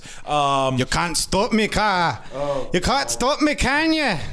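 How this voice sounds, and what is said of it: Convincing put-on accent. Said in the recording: “it's such a good accent. It's better than mine”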